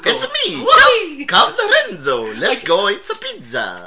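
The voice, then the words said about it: Cartoonish Super Mario Italian voice. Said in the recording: “my Super Mario”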